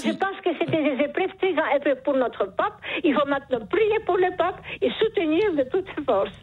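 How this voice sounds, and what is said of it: Charming accent. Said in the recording (French): “Vous avez un charmant accent ... ce joli accent”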